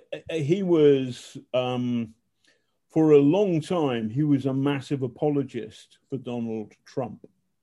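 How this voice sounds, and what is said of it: Manchester English accent. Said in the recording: “Manchester, oh, what a lovely accent you have.”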